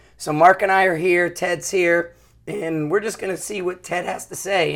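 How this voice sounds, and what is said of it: Hoarse, partly lost voice. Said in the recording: “I kind of lost my voice a little bit ... my voice is going”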